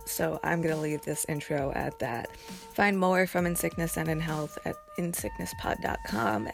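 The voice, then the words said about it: Strained, failing voice. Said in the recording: “My voice is trying to escape from my body again”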